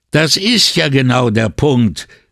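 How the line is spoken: Priest calling out. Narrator (German): rief der Priester

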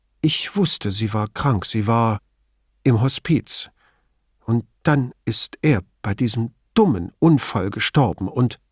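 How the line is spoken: Clear but still shaken. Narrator (German): sagte mit klarer Stimme, auch wenn sie sich offenkundig noch nicht ganz gefangen hatte

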